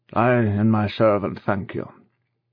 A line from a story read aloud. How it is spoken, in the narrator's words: said huskily